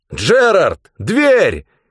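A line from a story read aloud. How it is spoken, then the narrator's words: Shouted. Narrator (Russian): крикнул я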